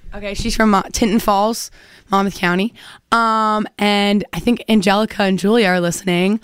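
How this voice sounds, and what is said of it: Hoarse, nearly lost voice. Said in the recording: “I also lost my voice, so that's why I sound like this”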